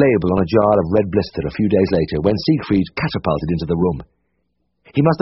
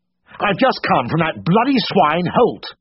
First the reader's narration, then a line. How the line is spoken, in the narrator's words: shouted